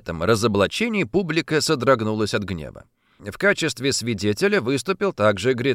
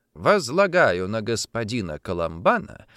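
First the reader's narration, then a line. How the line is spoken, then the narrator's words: Calm, quiet. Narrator (Russian): сказал спокойно, почти не повышая голоса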